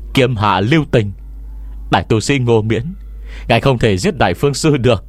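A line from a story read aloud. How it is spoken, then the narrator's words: Loud shout. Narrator (Vietnamese): có người lớn tiếng hô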